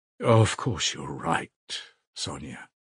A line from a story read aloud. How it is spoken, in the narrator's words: he said softly at last